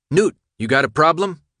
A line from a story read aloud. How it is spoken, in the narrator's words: Minho asked, his voice surprisingly stern